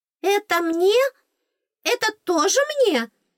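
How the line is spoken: Squealing, choking with delight. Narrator (Russian): Захлебываясь от восторга, запищала она

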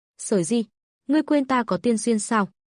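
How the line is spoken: Confident smiling tone. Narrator (Vietnamese): Lộ Thần mỉm cười tự tin

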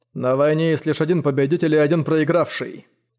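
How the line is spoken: Cold. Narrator (Russian): холодно произнес он

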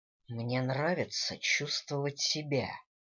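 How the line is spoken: Impatient growl. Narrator (Russian): нетерпеливо рыкнул Дэниел

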